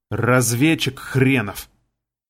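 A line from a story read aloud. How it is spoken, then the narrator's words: Hissed. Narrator (Russian): прошипев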